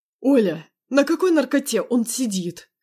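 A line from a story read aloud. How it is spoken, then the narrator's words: Roared. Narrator (Russian): взревел мой папа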